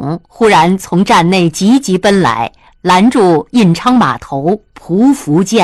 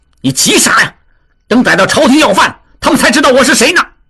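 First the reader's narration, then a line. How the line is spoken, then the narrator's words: Shouting. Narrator (Chinese): 旺柏也叫道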